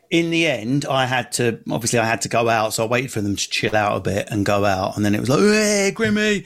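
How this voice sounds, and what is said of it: Strong North London Essex accent. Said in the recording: “I've got a quite strong North London Essex accent”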